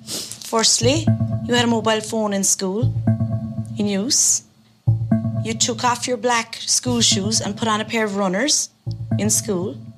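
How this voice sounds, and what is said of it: Irish accent. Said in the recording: “I love the Irish accent.”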